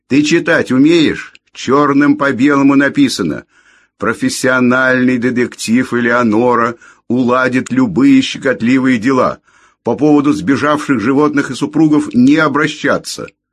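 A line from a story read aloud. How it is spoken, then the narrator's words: Furious yelling. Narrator (Russian): моя хозяйка разъярилась и заорала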